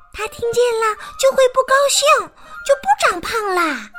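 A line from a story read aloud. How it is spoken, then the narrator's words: Quiet voice. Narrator (Chinese): 茉莉也小声说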